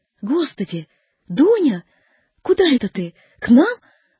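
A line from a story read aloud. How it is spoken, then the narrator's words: Surprised joyful exclamation. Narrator (Russian): воскликнула она, удивившись и обрадовавшись в одно и то же время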